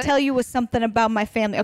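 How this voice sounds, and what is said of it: Put-on New Jersey accent, Caroline Manzo. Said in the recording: “In our best Jersey accent ... I know how to get into it with Carolyn Manzo”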